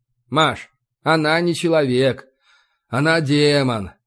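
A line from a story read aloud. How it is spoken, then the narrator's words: Sighed. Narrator (Russian): вздохнул я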